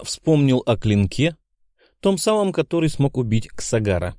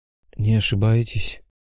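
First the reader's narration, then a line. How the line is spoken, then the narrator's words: Sleepy mumble. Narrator (Russian): сонно пробормотал монгол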